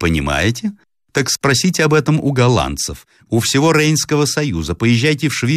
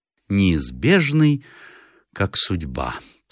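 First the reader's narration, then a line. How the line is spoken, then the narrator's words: Almost reverent repetition. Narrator (Russian): повторила почти набожным голосом хозяйка дома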